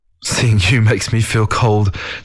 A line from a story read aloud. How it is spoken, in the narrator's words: Zhou Luo chuckled